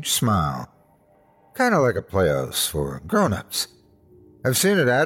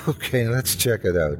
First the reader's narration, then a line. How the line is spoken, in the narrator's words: I said with a giggle